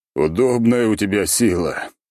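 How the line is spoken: Groaning with mouth full. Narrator (Russian): простонал тот, поглощая чай с кашей

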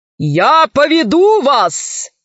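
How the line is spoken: Thunderous shout. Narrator (Russian): закричал громовым голосом адмирал

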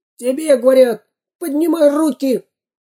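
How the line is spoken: Squeaked. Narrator (Russian): пискнул второй грабитель

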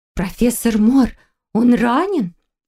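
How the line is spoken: Frightened muttering. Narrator (Russian): испуганно пробормотала Валерия

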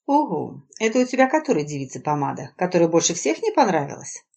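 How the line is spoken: Insinuating question. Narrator (Russian): вкрадчиво спросила Надежда

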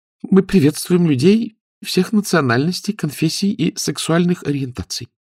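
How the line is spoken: Timid. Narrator (Russian): робко сказала администраторша

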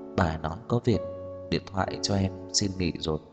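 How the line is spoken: Quiet voice. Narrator (Vietnamese): chỉ nhỏ giọng

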